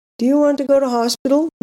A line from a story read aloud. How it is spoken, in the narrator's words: Mum asked me anxiously